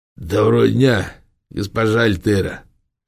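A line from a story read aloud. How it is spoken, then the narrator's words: Hoarse bass. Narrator (Russian): хрипло пробасил ефрейтор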